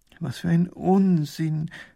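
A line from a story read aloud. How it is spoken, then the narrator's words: Groaning. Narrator (German): stöhnt Professor Pfiffikus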